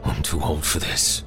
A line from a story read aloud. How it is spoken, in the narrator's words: Grizz wheezed